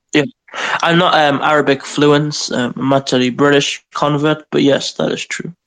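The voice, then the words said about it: British accent. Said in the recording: “Is that my accent, huh? ... The British people always sound more intelligent than Americans.”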